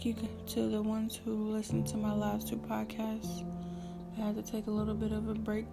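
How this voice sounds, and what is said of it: Sick-sounding voice. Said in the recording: “Excuse my voice, I think I'm getting a little sick”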